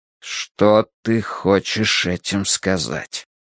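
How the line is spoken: Deadly quiet voice. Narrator (Russian): смертельно тихим голосом произнес папа

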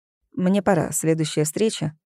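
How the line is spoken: Dry. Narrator (Russian): сухо сказал он

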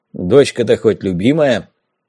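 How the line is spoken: Deep bass voice. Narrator (Russian): пробасил Бессонов

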